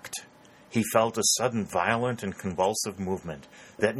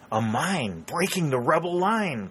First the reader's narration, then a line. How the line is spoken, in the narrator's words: cried Warner